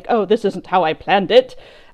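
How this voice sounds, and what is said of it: Bad put-on British accent. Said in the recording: “that's such a bad British accent, I apologize for that”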